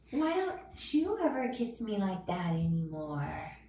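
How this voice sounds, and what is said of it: Soft, sweet baby voice. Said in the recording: “in my soft, sweet baby voice”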